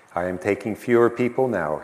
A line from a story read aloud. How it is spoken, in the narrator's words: he said